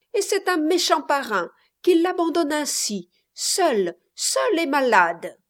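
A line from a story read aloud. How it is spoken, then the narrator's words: Cried out. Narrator (French): s'écria Reine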